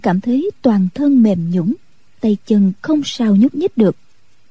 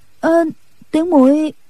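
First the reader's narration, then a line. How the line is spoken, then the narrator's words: Embarrassed stammer. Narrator (Vietnamese): thẹn đỏ cả hai má, ấp úng nói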